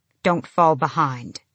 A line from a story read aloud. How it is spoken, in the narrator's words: she said